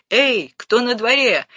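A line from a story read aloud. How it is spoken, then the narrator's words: Shouting. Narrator (Russian): крикнул капитан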